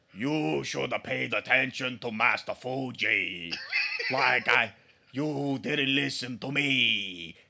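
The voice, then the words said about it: Put-on fake Japanese accent impression. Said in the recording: “all of his energy goes in trying to sound Japanese... And failing... What is this accent?”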